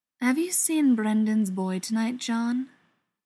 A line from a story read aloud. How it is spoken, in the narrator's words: he asked